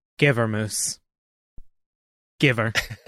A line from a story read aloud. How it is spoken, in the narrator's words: I softly whisper to the Giga Moose